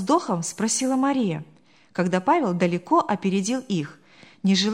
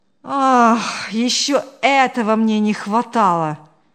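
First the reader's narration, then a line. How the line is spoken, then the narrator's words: Sigh. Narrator (Russian): вздохнул Павел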